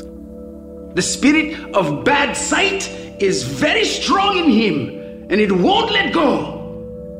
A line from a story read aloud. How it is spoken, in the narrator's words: the prophet yells